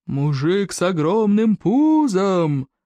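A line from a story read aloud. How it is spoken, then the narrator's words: Roar. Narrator (Russian): проревел всадник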